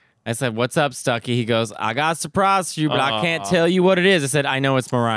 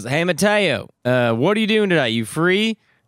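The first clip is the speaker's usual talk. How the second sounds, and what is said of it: Imitated Southern US accent. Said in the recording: “He's got a real Southern accent.”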